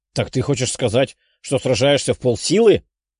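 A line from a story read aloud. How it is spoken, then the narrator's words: Growled. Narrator (Russian): прорычал парень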